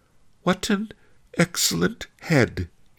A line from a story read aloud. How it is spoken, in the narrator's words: kept whimpering